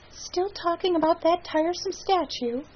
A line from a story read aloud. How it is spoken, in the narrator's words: sighed again